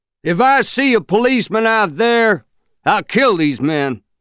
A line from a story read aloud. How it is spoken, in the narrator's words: Mister shouted back